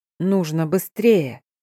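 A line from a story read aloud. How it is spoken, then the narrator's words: Soft with growling undertone. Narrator (Russian): не выдержав паузы, как можно мягче произнес я, но в голос все равно проскользнули рычащие нотки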